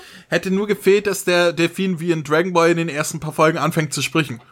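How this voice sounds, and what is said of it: Usual voice. Nothing is said of it.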